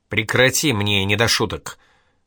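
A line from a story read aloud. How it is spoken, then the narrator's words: Snapping. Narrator (Russian): огрызнулась Инга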